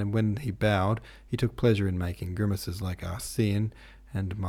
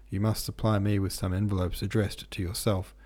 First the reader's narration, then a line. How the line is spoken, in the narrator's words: She said to Julien that evening in the driest tone